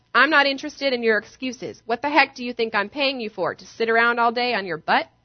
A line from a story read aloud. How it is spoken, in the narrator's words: He shouts